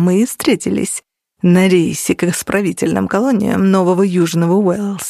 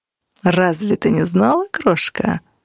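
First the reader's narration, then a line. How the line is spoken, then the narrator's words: Purring. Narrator (Russian): промурлыкал Ян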